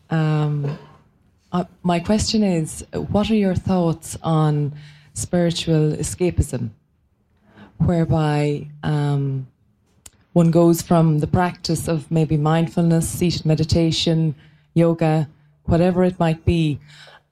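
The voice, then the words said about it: Irish accent. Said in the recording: “I'm from Ireland, so I hope you can understand me with my accent.”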